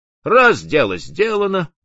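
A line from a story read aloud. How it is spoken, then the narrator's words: Muttering captain. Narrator (Russian): пробормотал капитан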